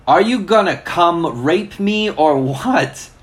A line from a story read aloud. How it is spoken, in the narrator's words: I yelled